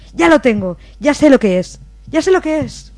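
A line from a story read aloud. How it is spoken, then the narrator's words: Excited female exclamation. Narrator (Spanish): una compañera, que había caído en un ataque similar, exclamó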